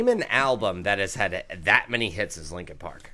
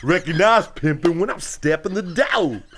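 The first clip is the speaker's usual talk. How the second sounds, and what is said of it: West Coast rapper voice impression. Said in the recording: “You're going to start going West Coast? ... Like E-40? ... That does sound like E-40, though, doesn't it?”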